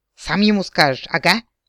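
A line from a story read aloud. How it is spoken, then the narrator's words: Angry yap. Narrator (Russian): злобно тявкнула кицуне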